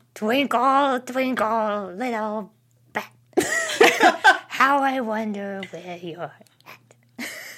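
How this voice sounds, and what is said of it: Impression of Teapot Mouse. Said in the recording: “Someone requested Teapot Mouse for me, which is my favorite impression to do. ... That's pretty good. ... Spot on.”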